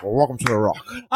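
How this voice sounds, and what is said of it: Sean Connery impression. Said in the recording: “Were you doing your Sean Connery voice the whole fucking time?”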